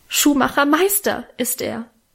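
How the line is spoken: Tearful cry. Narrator (German): rief Minchen mit Tränen in den Augen

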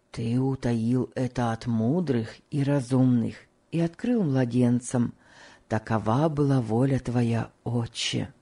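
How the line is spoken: Whisper. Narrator (Russian): прошептал Том

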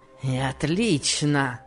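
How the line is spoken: Savage grinning grumble. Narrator (Russian): проворчал он, зверски усмехаясь

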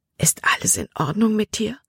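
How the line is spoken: Whispered. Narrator (German): flüsterte er

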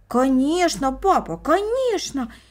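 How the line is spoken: Children exclaiming in unison. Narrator (Russian): воскликнули брат и сестра в один голос

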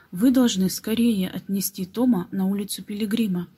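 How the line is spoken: Plain. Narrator (Russian): сказал Нет

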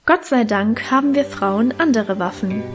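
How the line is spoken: Plain answer. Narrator (German): antwortete Mutter

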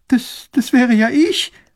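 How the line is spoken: Sobbing girl. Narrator (German): schluchzt das Mädchen

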